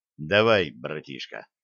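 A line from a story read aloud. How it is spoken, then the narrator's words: Quiet command. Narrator (Russian): негромко скомандовал старший лейтенант пограничных войск Павел Войтовский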